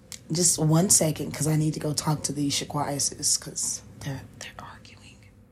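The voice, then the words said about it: Whispering. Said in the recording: “don't ask why I'm whispering. I'm whispering because I can. I'm whispering because I will. I'm whispering because I like to hear myself whisper.”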